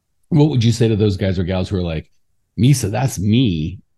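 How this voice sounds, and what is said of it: Choked-up, emotional voice. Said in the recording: “getting all choked up”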